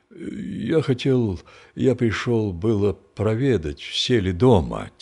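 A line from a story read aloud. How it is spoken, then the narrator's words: Quiet halting reply. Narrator (Russian): тихо отвечал Архип, запинаясь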